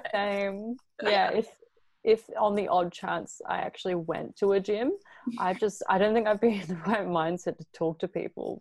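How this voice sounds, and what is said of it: Australian accent. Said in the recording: “I felt like I could listen to your accent all day ... Some people think I'm British, or some people think I'm American ... your Australian accent”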